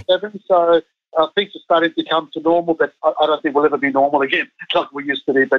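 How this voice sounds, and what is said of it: Australian accent. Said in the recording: “your Aussie accent”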